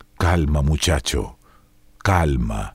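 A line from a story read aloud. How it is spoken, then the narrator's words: Murmur. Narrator (Spanish): murmuró McDan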